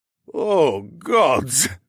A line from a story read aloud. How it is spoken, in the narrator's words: Anatoly groaned